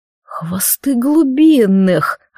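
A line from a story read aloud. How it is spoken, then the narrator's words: Flustered cursing. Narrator (Russian): растерянно ругнулся Аргиан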